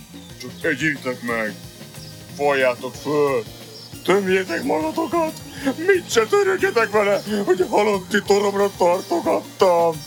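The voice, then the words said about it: Gloomy, sepulchral character voice. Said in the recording (Hungarian): “Mondta síri hangon ... Mondta még sírib hangon”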